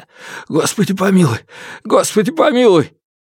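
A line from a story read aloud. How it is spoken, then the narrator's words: Hoarse wailing. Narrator (Russian): Хриплые вопли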